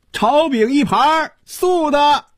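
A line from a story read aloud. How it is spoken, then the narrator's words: Operatic call from behind. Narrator (Chinese): 忽然从身后传来一声像京戏里叫板一样的喊声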